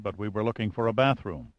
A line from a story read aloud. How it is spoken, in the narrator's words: Pitt said quietly